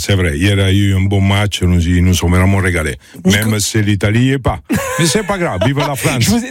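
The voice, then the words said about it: Italian accent speaking French. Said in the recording (French): “je l'ai compris au vu de ... l'accent. C'est l'Italie.”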